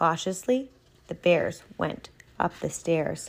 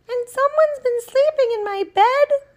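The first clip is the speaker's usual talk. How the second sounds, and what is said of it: Medium-pitched mama bear voice. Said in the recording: “said the mama bear in her medium sized voice”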